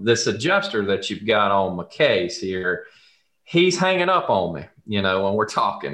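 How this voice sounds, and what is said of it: Southern US accent. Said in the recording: “If you can't tell from my accent, this all started in the South.”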